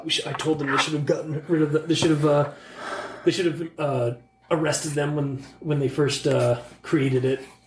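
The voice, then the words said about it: Pained voice, accent dropped. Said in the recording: “Where'd your accent go, by the way? ... This is my pain voice.”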